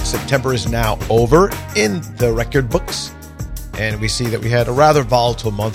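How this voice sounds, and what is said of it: Slightly sick, under-the-weather voice. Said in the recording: “you sound kind of under the weather or something. Well, that's true. I have a little bit of a cold.”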